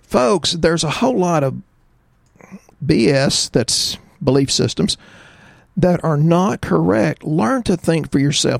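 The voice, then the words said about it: Strong Texas drawl. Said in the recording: “I have a real bad Texas drawl.”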